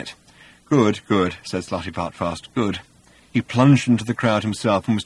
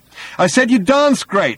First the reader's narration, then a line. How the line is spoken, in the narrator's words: he shouted